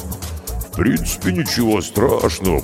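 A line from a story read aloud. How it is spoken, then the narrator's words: Booming drone. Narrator (Russian): прогудел Карков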